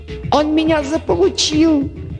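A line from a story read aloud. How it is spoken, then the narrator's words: Squeal. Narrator (Russian): взвизгнул Дерг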